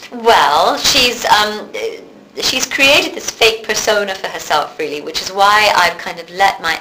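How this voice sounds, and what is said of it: Slight English accent, partly North American. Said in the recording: “I'm now sounding more North American. I float somewhere on a raft in the middle of the Atlantic ... my slight English accent”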